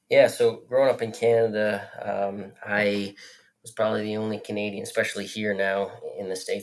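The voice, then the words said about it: Canadian accent. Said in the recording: “you're from Canada. If people can't tell from your accent”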